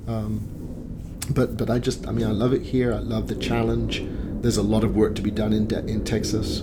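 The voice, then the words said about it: British accent. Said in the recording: “my British accent ... having a British accent”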